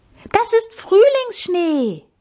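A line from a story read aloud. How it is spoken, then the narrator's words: Calling out. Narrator (German): rief Amalie jetzt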